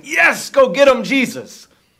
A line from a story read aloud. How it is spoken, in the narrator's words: start cheering our victor and start shouting